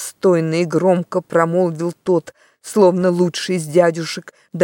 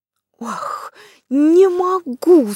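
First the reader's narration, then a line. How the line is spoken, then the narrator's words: Shouted again. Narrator (Russian): снова крикнул Дигори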